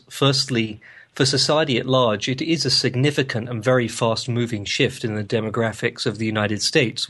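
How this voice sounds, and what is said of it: London English accent. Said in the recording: “You can probably tell from my accent that I'm a Londoner by birth.”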